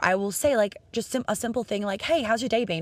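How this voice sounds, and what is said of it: Speaks with a noticeable accent. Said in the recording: “obviously I have an accent”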